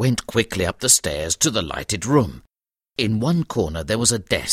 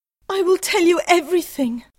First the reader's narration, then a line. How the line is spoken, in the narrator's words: cried his wife